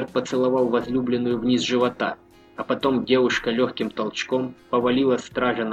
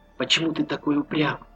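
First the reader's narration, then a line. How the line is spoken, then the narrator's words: Whisper. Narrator (Russian): прошептала Маша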